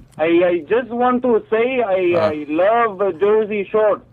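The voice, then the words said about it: Fake foreign accent. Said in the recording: “random caller with the fake accent ... It was ... from another country.”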